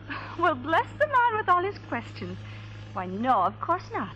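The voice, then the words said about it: Irish accent. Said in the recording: “that's quite an accent you got there. Irish, ain't it?”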